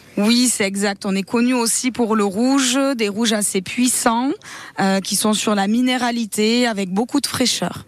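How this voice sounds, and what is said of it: Slight southern French accent. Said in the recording (French): “une région très ensoleillée avec les cigales. Peut-être que ça s'entend un petit peu dans mon accent.”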